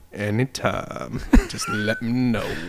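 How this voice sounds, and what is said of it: Deep voice imitation. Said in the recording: “deep voice”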